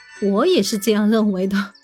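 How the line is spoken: Laughing reply. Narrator (Chinese): 苏轼笑着回答说

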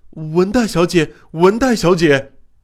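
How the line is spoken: Delirious shouting. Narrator (Chinese): 小林 像说胡话似的喊道

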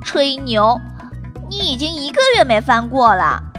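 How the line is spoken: Quiet voice. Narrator (Chinese): 托比小声说

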